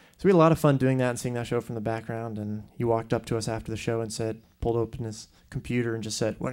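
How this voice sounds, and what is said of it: Usual voice. Nothing is said of it.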